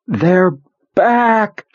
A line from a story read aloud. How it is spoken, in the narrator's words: she screamed